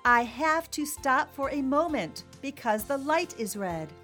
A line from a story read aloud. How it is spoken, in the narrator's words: In his loudest voice, he said